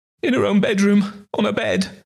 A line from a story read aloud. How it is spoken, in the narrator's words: the other wailed